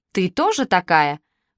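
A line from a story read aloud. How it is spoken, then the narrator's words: Angry retort. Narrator (Russian): бросил он в ответ, зло сузив глаза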